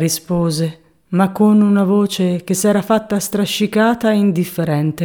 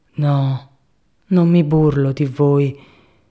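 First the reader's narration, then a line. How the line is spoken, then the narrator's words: Vague, sorrowful tone. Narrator (Italian): con un tono vago, accorato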